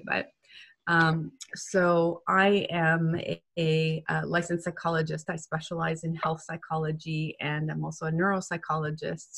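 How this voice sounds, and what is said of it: Weak voice from a cold. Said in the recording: “I'm at the tail end of a cold, so my voice is a little not at its usual strength today.”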